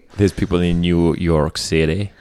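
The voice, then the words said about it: Poor put-on American accent. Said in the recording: “that's a terrible ... American accent.”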